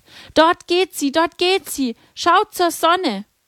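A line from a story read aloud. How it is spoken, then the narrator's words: Called out. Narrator (German): Lucia ... rief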